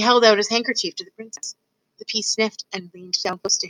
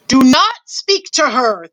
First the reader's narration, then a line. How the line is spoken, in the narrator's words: thundered the king